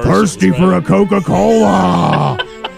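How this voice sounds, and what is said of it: Imitates a polar bear's voice. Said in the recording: “Great impression of a white bear. I mean, a polar bear.”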